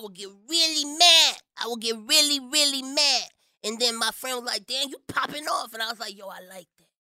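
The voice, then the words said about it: Strong Miami accent. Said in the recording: “Your accent is so strong. It sounds like you're saying Dane County.”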